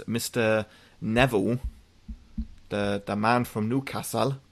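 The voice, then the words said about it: Poor put-on Geordie accent. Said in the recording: “That was a terrible Geordie accent.”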